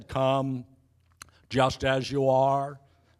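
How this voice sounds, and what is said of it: Imitates another person's voice. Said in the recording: “That's an excellent Billy Graham impersonation.”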